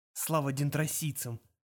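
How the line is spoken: Whisper. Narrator (Russian): прошептал он

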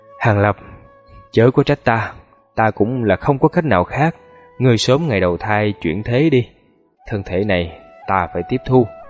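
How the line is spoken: Very quiet, slow. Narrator (Vietnamese): Hắn dùng thanh âm cực nhỏ chậm rãi nói

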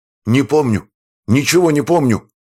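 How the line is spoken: Near shout. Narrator (Russian): почти выкрикнул он

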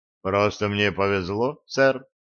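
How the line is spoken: Calm. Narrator (Russian): спокойно сказал я

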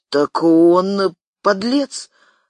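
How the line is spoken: Slight stammer. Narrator (Russian): слегка заикаясь, сказал Юрка

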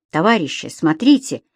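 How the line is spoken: Exclaiming. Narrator (Russian): воскликнул Муратов

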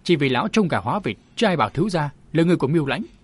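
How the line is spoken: Cold reply. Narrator (Vietnamese): chàng lạnh lùng đáp

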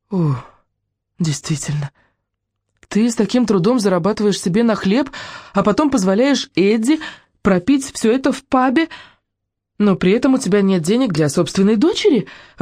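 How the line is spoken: Exclaiming. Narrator (Russian): воскликнула Руби

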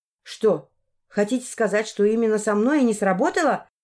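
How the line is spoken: Angry exclamation. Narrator (Russian): Рассерженно воскликнула я

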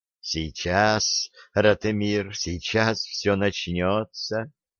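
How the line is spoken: Quiet promise. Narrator (Russian): тихо пообещал Асфирь

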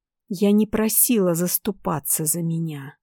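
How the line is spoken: Rasping. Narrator (Russian): прохрипела

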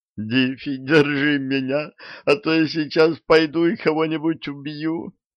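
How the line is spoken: Groaning. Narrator (Russian): простонал

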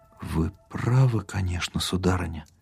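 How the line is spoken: Shocked whisper. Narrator (Russian): потрясенно прошептал Даль

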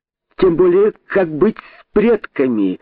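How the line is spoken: Exclaiming. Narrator (Russian): воскликнул Находчивый

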